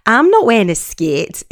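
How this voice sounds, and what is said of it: Bad put-on Scouse accent. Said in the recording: “That was a really bad Scouse accent”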